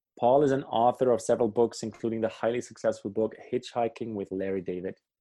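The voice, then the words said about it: Accent with an international ring. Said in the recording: “I like it with that accent too. It really has a beautiful international ring to it.”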